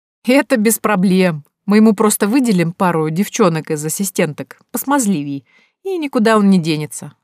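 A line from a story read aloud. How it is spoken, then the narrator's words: Laughing. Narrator (Russian): рассмеялась я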